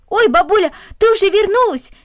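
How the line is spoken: Indifferent shout. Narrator (Russian): крикнул он, равнодушно

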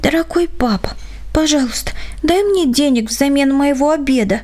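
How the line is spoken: Child's whisper. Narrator (Russian): Дочурка прошептала

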